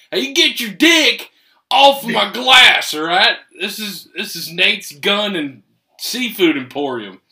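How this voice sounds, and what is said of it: Exaggerated put-on southern accent. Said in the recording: “you're getting way too much of your southern accent.”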